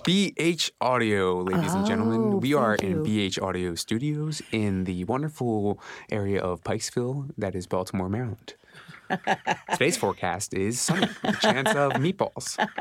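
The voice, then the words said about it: Radio announcer voice. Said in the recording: “That was a really good radio voice, kind of.”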